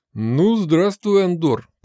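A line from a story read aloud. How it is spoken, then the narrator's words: Booming big man. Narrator (Russian): прогудел здоровяк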